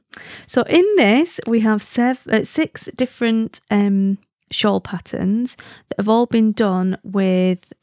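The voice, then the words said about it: Lancashire Wigan accent. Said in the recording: “I'm Lancastrian ... a Wigan accent ... sounds very similar to like Leeds, Castleford”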